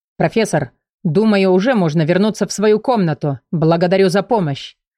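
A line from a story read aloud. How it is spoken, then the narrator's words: Thunderous deep bass. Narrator (Russian): громоподобно пробасил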